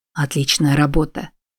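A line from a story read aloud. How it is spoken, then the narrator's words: Whisper. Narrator (Russian): прошептал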